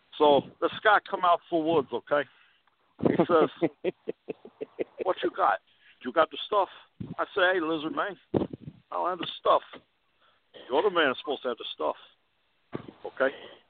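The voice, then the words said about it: Put-on South Florida Scarface-style accent. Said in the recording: “if the Lizard Man was from South Florida ... You got to give it an accent there ... They still should have put Lizard Man in Scarface”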